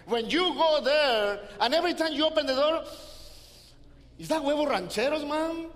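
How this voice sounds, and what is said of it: Hispanic accented English. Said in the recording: “I'm not talking feet because of my accent. I'm talking food.”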